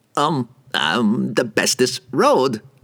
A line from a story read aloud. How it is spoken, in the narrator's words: the merchant stammered